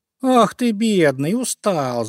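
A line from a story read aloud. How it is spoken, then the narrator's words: Laughing. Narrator (Russian): засмеялся зайка Петя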